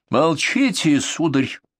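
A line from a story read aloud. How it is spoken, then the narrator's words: Breathless. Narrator (Russian): выдохнула цесаревна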